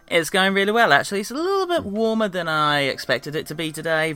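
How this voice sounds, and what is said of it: British English accent. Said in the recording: “the accent should make it that pretty clear ... we're in the UK”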